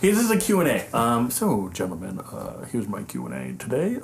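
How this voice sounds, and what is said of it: Mock-serious radio announcer voice. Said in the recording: “This is my serious voice. ... This is NPR voice. ... Sounds way goofier than your normal voice. ... It's your Dave Chappelle white guy voice.”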